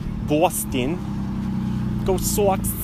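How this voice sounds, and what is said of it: Put-on Boston accent. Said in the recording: “that's my Boston accent.”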